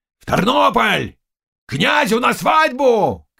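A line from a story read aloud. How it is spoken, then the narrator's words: Shouting. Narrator (Russian): кричал Заглоба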